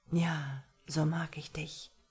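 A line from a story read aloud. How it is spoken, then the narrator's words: Low murmur. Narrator (German): raunte er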